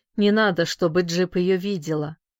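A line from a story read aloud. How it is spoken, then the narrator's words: Gloomy. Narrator (Russian): мрачно сказал он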